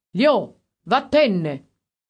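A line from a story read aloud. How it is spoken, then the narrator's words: Shouting. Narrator (Italian): sembrava un cane pure lui, e gli ha gridato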